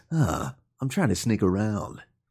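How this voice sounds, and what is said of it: Performs a character voice. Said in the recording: “your Snake voice ... It's pretty good.”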